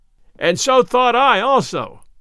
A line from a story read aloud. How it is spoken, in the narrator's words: cried Robin Hood, bursting out of the thicket and shouting with laughter till the tears ran down his cheeks